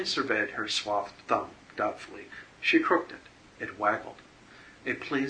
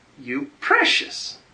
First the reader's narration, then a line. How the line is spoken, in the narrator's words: cried Evelyn